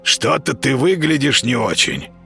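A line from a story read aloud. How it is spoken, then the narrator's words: Hoarse rasp, cat. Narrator (Russian): прохрипел кот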